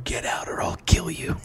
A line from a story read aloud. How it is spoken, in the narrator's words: He was known to whisper